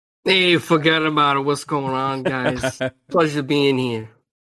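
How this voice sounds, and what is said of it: Good impersonation of another voice. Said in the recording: “that was a good impersonation”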